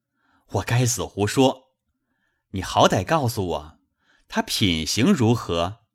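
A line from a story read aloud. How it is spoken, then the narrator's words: Laughing. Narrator (Chinese): 宝玉笑道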